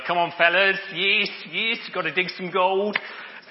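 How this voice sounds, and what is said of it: Put-on Australian accent. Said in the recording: “Aussie Gold Hunters... It helps me get my accent right”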